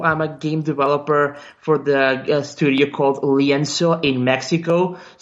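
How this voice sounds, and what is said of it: Non-native English accent. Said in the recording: “English is not my first language, so you may get some a bit of accent here and there.”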